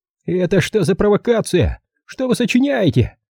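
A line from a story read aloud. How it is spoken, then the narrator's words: Yelling. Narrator (Russian): заорал он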